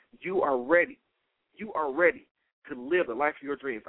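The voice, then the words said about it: Fired-up, energetic voice. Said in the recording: “I don't know if you hear it in my voice, I feel it right now. I'm fired up”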